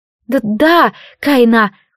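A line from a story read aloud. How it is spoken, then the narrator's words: Timid babbling maid. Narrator (Russian): пролепетала служанка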